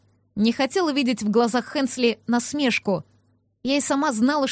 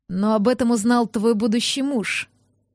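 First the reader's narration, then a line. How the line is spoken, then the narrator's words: Hoarse creature voice. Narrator (Russian): сипло произнес шерх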